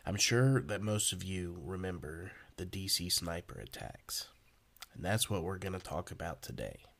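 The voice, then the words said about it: Voice sounds sick. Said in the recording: “I have been sick these last few days, so if my voice isn't sounding just right”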